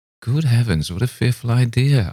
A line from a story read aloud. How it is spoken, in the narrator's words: I exclaimed, half laughing